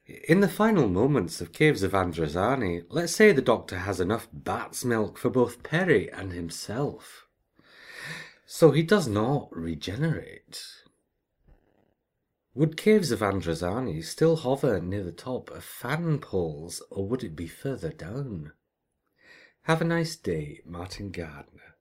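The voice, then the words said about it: Convincing put-on accent. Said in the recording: “You've been watching The Wicker Man too much... Was my accent that convincing?... Yeah, take the high road.”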